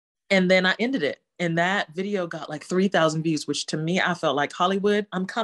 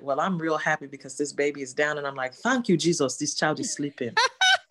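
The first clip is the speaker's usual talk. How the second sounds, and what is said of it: Slips into original home accent. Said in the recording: “you go into your accent, your original accent? ... going into that accent”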